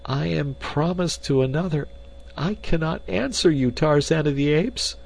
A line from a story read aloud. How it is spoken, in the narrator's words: she cried